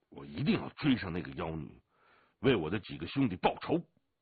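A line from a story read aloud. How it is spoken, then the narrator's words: Through gritted teeth. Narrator (Chinese): 祥龙咬了咬牙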